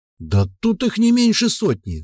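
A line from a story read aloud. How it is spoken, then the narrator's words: Exclaiming. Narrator (Russian): воскликнул эльф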